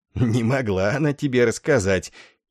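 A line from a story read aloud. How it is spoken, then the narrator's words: Gurgling giggling objection. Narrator (Russian): хихикая, как курлычет в дождь водосточная труба, возразил Ор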